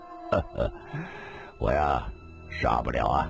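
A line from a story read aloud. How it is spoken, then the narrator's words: Sighing, bitter laugh. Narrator (Chinese): 李寻欢又叹了口气，苦笑了一声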